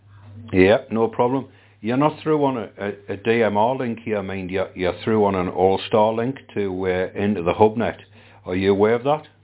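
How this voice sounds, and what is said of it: Slight Geordie accent. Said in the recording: “Your audio is very nice, mind. Very nice, very audible. It's naturally you. You can detect the hint of the Geordie accent there.”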